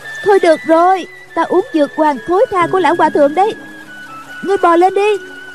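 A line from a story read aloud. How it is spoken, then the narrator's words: Old woman shouting. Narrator (Vietnamese): Bà la lên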